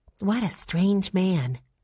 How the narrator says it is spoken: said Violet softly

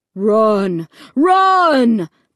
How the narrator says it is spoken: the voice on the loudspeaker boomed

